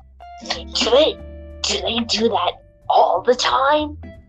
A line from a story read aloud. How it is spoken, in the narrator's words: She whispered